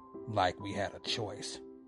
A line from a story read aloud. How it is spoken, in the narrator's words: Frank snarled